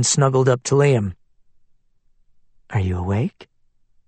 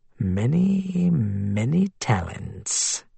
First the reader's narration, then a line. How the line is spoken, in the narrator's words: he said with a purr